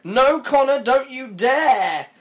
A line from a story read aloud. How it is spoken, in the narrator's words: I screamed